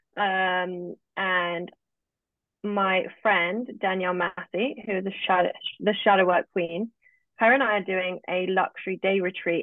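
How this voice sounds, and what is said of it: British accent. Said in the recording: “As people who are listening can tell, I'm live in England. I'm British. I have a British accent.”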